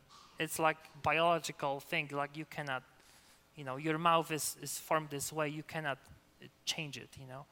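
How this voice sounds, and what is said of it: Slight non-native accent. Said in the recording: “do I have an accent? Yeah, you do ... you would hear the slight, you know, accent in my speech ... I will never sound as a native speaker”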